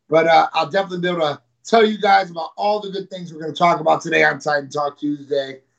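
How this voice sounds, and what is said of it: Slightly raspy, strained voice. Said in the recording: “lost my voice from this weekend... my voice is a little raspy.”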